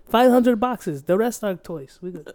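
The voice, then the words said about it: Put-on accent. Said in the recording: “I don't know why the accent.”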